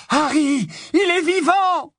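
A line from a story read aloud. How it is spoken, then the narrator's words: Shouts from everywhere, abruptly choked. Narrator (French): hurlés de toutes parts s'étranglèrent aussitôt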